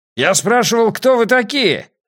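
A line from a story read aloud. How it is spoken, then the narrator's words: Shouting spearman. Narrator (Russian): закричал копейщик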